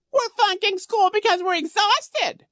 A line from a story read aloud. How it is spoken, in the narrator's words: he squealed